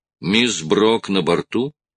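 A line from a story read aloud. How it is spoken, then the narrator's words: Plain. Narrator (Russian): спросил Строн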